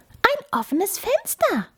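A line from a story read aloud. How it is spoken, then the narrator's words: Mouse's squeak. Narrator (German): piepste die Maus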